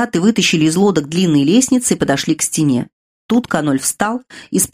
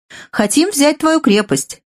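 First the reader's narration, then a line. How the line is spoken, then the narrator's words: Laughing. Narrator (Russian): Каноль засмеялся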